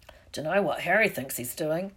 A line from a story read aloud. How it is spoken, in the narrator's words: Hagrid mumbled